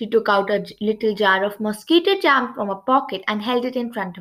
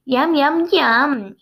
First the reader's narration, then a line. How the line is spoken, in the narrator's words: said happily